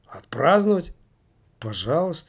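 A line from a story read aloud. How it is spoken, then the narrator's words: Tired. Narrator (Russian): устало сказала Юнникова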